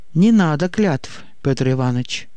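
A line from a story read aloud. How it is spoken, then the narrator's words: Sad, smiling. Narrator (Russian): грустно улыбнулся Игнат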